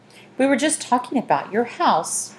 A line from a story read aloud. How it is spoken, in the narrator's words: Miss Dewey said in a sugary voice